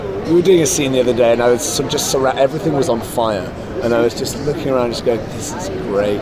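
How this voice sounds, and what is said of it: British accent. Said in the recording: “Judging from your accent, there's probably a bit of Doctor Who in your DNA.”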